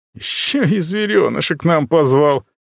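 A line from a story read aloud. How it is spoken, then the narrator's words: Near moan. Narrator (Russian): Практически простонал Костян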